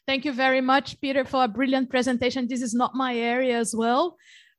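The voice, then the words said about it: Strained, fading voice. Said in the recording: “I'm up and running since 6 a.m. today talking, and I'm starting to lose my voice”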